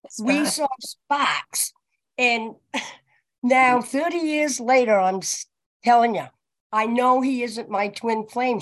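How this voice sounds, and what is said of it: Maine accent. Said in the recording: “I'm from Maine, so excuse my accent.”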